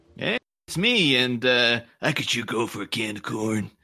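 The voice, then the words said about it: Impression of cartoon bus driver Otto. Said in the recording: “That's a great impression... I felt like Otto was in the room with us”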